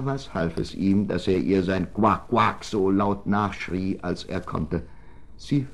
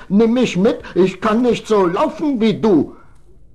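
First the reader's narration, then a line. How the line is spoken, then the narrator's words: Frog calling out. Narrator (German): rief der Frosch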